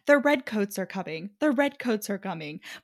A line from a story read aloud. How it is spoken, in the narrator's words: Garrett mutters under his breath